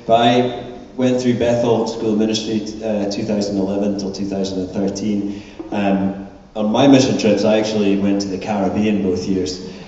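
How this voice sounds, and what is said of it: Scottish accent. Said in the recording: “I am from Scotland, obviously, by my accent.”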